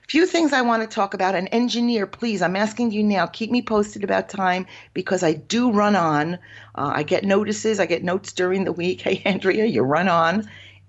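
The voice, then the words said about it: Nasal voice with an accent. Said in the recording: “my accent and nasal vocal quality ... this accent ... I have an accent”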